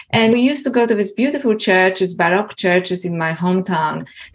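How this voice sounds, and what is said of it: Polish accent. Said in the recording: “as you can probably feel from my accent, I was originally born in Poland”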